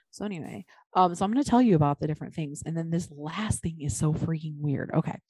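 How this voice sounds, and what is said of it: Quiet, hushed near-whisper. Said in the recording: “Why are you whispering? ... Not really whispering, but you sound like you're trying to be quiet.”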